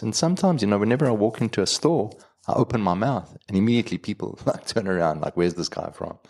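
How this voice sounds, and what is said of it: Non-American accent, sounds British-like. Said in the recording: “Got a different accent, I come from a different place ... they'll always assume that I'm from England”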